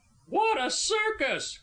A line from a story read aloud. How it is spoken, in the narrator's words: cried one